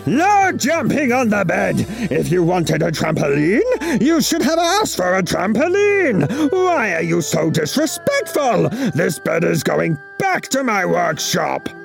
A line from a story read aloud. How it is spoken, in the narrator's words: he would roar